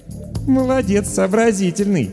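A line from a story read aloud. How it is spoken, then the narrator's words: Laughing. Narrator (Russian): хохотнула Даша Воронина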